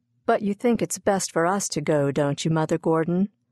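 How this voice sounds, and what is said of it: Worried voice. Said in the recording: “in a worried voice”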